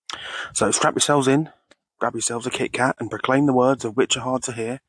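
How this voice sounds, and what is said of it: Hoarse, unwell voice from flu. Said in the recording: “I'm just getting over a flu, so that is why I sound like Pat Butcher ... the full radio voice, even if it is a little bit unwell ... even if I don't sound quite myself”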